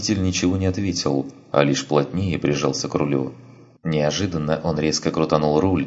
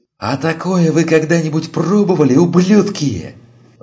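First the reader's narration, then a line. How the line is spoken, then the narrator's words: Driver yelling. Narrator (Russian): заорал водитель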